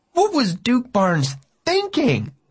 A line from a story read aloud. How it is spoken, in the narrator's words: I cried